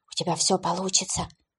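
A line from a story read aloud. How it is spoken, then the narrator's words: Whispered into ear. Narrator (Russian): прошептал он ей на ухо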